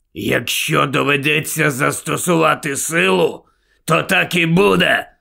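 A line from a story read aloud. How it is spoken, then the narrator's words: Fierce growl. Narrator (Ukrainian): Прогарчав Муді, люто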